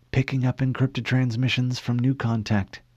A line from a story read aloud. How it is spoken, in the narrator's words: Cortana whispered